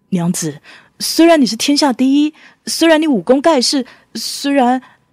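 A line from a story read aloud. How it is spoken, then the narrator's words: Choked sobbing. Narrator (Chinese): 他哽咽着说不完话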